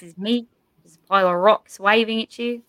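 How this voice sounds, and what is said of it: Put-on New Zealand accent. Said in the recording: “I can do like ... Korg ... Korg is played by Taika Waititi from New Zealand ... the only accent I have up my sleeve is like the Australian/New Zealand ... your New Zealand accent”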